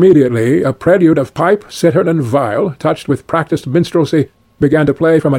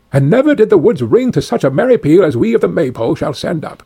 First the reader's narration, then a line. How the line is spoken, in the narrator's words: cried they all